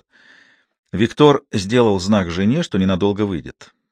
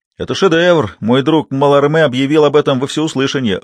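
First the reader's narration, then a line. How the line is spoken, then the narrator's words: Shout from the audience. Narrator (Russian): выкрикнули из зала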